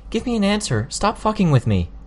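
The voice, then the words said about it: Raised, shouting voice. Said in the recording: “I raised my voice again.”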